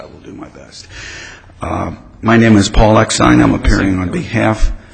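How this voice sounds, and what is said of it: Hoarse, strained voice. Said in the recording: “I've got a bad case of laryngitis.”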